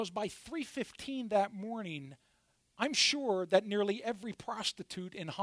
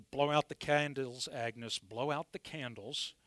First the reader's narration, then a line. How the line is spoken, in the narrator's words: Harry gruffly mumbled